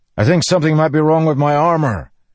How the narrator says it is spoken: Dalinar shouted to him

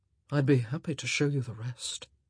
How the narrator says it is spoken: he murmured

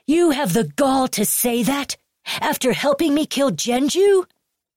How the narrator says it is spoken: Yun shouted

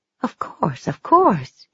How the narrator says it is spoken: he says warmly

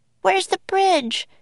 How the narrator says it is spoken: cried Annie

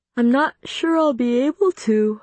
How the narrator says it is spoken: I said, stifling another yawn

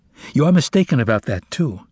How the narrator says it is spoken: retorted the prisoner, smiling brightly

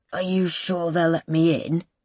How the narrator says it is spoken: he asks

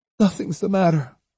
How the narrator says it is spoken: sobbed

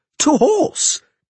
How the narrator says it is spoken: cried Dandelion

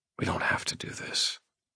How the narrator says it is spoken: I whisper

